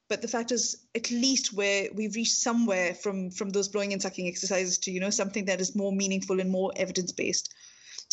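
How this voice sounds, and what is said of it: Strong Pakistani accent. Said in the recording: “I have a very, very strong Pakistani accent.”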